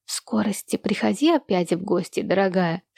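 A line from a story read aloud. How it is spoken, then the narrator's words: Whispered. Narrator (Russian): шепнула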